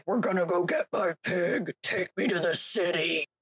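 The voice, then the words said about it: Impression of Nick Cage. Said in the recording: “Not a bad impersonation, actually.”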